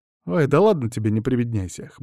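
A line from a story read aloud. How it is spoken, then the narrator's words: Snorting chuckle. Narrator (Russian): хмыкнул я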